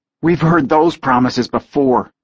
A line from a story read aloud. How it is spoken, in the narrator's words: Taylor said bitterly